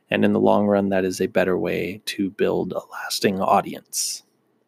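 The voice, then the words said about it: Strained, worn-out voice. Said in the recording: “My voice is pretty shot”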